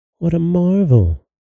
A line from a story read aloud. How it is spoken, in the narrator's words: cried the princess, starting back a little